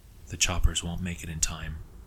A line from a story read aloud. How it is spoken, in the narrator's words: Sam said quietly, reconciling himself with the facts